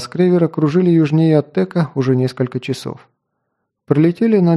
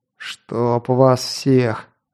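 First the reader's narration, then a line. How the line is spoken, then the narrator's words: Through gritted teeth. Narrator (Russian): сквозь зубы процедил Кинт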